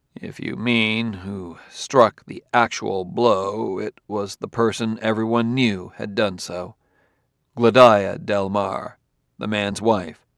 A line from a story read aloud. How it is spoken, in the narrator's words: Bailey said slowly